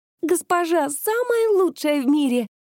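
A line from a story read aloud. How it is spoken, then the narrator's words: Squeal. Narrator (Russian): взвизгнула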